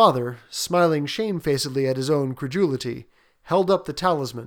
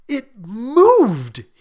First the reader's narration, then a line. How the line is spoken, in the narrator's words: cried, with a glance of disgust